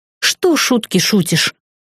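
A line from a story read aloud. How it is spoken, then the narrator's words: Irritated sharp rebuke. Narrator (Russian): раздраженно осадила его Ян Лин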